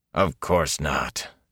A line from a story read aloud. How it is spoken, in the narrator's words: Elias growled